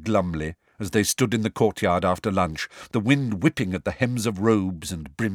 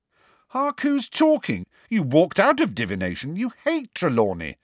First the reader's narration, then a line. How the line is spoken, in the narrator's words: said Ron indignantly